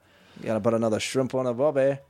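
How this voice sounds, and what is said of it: Bad put-on Australian accent. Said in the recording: “That was the worst Australian accent.”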